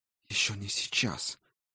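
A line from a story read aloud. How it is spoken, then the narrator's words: Whispered. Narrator (Russian): прошептала Райна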